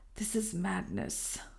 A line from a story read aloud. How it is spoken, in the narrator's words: muttered Herbert Lawrence